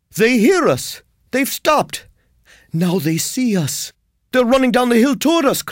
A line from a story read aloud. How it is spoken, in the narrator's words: cried